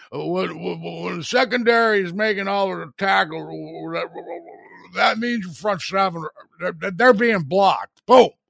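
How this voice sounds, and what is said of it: Poor imitation of a sportscaster's voice. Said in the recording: “Very lousy John Madden impersonation.”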